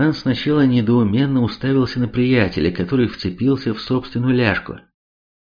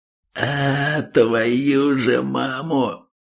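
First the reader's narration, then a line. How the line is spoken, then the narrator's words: Pained howl. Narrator (Russian): его лицо исказило страдальческая гримаса, и он взвыл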